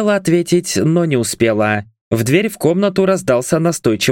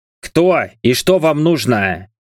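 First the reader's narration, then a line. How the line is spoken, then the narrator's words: Displeased growl. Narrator (Russian): рыкнул император, а в его голосе послышались нотки недовольства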